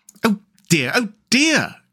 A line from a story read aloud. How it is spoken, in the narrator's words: cried the rat in despair at his obtuseness